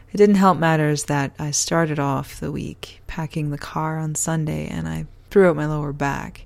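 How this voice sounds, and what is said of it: Tired-sounding voice. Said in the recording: “You look really tired... Yes, I'm very tired... You can probably hear it in my voice, too.”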